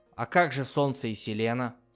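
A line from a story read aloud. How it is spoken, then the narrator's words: Plain. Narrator (Russian): спросил Пасти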